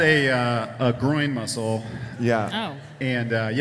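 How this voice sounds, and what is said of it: Usual voice. Nothing is said of it.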